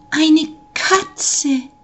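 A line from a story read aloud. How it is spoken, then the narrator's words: Joyful exclamation. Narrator (German): rief freudig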